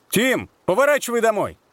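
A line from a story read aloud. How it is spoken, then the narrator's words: Shouting. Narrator (Russian): крикнул Питер, отодвинув шарф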